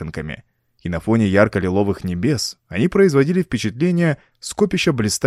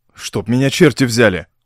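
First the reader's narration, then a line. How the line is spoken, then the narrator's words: Exclaimed. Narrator (Russian): воскликнул Ровертон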